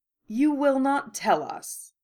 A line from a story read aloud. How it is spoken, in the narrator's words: McGonagall corrected dryly